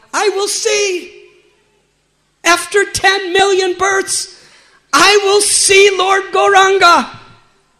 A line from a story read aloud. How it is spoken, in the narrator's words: he cried out